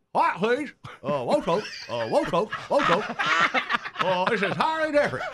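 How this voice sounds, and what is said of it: Impression of Colonel Satter. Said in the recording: “impersonation ... Colonel Satter.”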